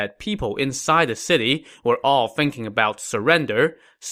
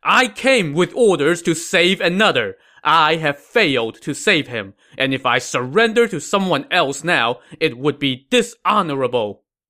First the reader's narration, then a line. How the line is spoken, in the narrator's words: Yu Quan replied angrily